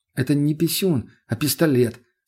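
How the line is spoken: Calm. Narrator (Russian): спокойно отреагировал парень

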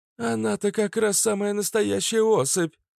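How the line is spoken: Exclaimed. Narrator (Russian): воскликнула Фитилек

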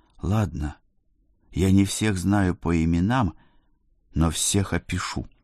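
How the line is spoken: Trembling voice. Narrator (Russian): сказал дрогнувшим голосом

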